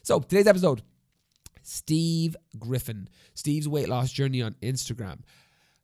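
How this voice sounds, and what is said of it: Congested voice from a cold. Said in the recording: “voice goes like really coldy... this doesn't sound like my normal voice... I sound weird... my body is rebelling against itself and this is how I sound now”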